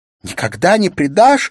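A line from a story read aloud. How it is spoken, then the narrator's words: Sobbing shout. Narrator (Russian): закричала Улла со всхлипыванием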